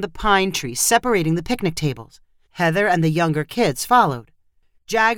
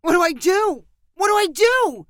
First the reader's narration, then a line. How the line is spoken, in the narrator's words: Jagger cried out